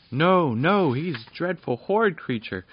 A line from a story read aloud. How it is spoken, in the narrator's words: cried the little folk at once